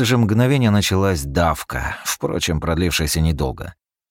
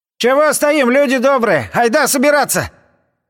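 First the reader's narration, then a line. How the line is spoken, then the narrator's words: Shout from crowd. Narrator (Russian): в толпе крикнули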